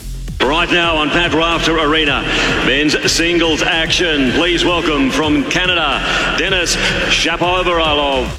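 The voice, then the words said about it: Australian accent. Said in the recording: “the Aussie accent, right? You're with me. The Aussie accent makes everything so much better”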